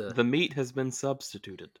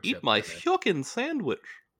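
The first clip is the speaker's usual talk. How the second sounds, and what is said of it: Cartoon character voice. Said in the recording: “That was Goofy doing an impression of Mickey Mouse.”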